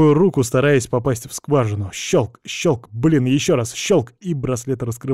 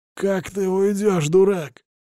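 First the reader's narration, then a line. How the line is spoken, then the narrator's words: Hoarse wheeze. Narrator (Russian): хрипит Кухарчук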